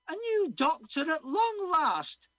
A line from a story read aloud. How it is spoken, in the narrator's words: she cried out